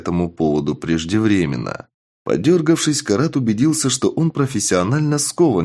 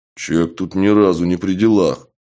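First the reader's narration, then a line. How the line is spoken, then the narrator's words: Booming voice in darkness. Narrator (Russian): прогудели в темноте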